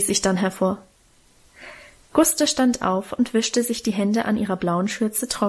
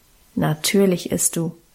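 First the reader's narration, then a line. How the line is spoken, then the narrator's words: Calm firm command. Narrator (German): bestimmte Guste ruhig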